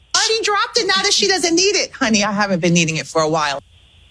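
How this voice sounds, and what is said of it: East Coast American accent. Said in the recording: “Somebody with an East Coast accent. It sounded like Wendy Williams to me.”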